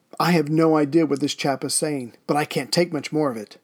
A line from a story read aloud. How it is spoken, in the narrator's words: Obviously, bored out of his mind, he exclaimed